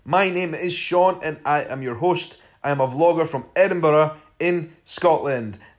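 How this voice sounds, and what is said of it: Scottish accent. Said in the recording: “in a Scottish accent.”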